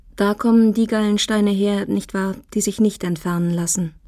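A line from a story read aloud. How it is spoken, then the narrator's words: Plain question. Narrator (German): fragte Mrs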